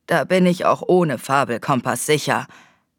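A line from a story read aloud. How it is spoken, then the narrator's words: Growling. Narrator (German): knurrte Peggory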